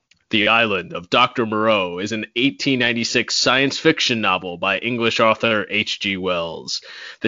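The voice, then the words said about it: Fake announcer voice. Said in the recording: “In my best fake announcer voice”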